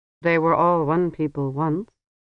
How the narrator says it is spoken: said the Namer in his level, toneless voice

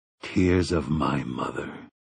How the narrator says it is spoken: he said in a low voice

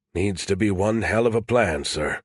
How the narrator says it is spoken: William said quietly

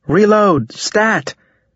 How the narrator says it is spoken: the bio shouted

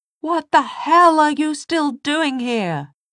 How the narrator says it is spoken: he shouted at Tessa

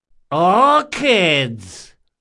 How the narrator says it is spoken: hollered someone from a second-story window

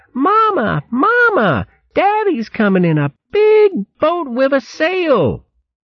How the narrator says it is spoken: 4 tiny shrew maids came dashing along the bank, squeaking

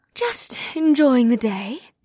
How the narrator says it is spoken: the white-haired woman said in an ethereal tone

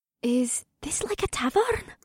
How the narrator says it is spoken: She asked me in a hushed voice

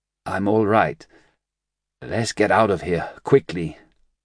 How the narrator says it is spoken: he said feebly

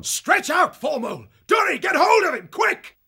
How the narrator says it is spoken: shouting aloud

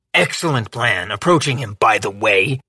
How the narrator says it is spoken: he added with a snarl

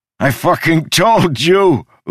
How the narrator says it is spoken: Udo laughed

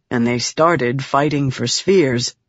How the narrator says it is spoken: Red softly added

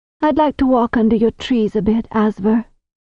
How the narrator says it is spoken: the herbal said with a long sigh

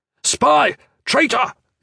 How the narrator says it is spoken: the officer shouted

